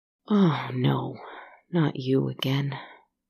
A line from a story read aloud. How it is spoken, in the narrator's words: she sighed